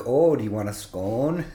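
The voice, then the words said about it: Minnesota accent. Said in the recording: “I am picking up a Minnesota accent”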